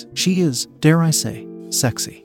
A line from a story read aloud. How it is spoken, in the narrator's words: he continued, murmuring soft praises